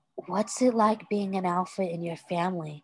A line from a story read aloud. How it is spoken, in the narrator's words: Styles asked quietly